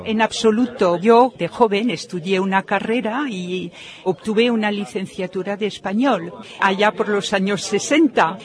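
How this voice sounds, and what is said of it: French accent speaking Spanish. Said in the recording (Spanish): “¿Es usted francesa por su acento?”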